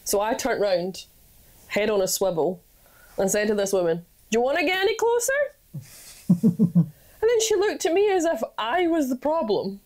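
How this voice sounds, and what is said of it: Scottish accent. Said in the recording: “a Scottish accent ... my accent”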